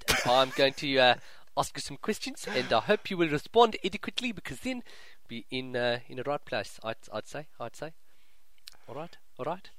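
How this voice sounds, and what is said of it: Put-on South African accent. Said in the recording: “segment we're going to do in an accent ... My name is South African NBZ”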